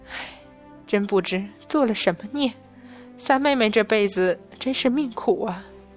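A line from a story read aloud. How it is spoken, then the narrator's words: Sighing. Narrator (Chinese): 嫦娥附儿叹息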